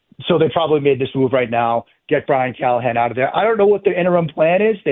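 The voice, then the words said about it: Boston accent. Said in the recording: “You can hear the Boston accent in there.”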